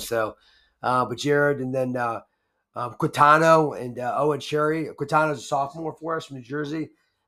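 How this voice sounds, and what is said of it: Hoarse voice. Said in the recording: “maybe my voice is hoarse. I was breathing so hard”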